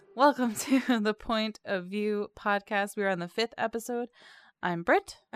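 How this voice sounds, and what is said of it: Worn-out, off-sounding voice. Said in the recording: “I just want to raise my volume because I know my voice is like really out of it today. Because I'm too old to party.”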